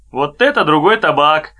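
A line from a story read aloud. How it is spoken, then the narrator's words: Amused captain's remark. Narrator (Russian): смеясь одними глазами, сказал капитан Енакиев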